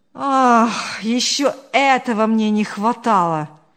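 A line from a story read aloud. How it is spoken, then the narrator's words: Sigh. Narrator (Russian): вздохнул Павел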